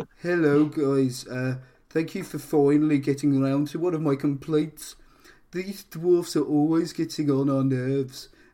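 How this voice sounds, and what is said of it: Put-on Birmingham Brummie accent. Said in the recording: “I have put an accent Brummy here.”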